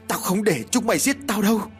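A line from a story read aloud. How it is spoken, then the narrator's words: Charging loud yell. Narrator (Vietnamese): Vừa lao vào, Khanh vừa hét lớn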